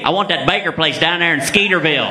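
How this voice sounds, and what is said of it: Put-on regional accent. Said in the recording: “the real reason why I lost my accent... You can't have an accent and get a number anymore”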